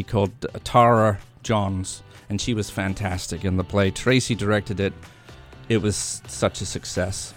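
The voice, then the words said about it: Grating put-on accent. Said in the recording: “some accent lessons here. I don't know. He grates on me the way he does it.”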